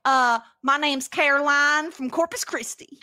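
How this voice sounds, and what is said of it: Put-on Texas accent. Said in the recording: “you have to do your Texas accent. Think Annie from Community.”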